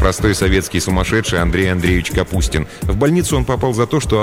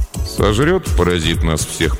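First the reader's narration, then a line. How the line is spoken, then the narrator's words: Gloomy grumbling. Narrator (Russian): проворчал он хмуро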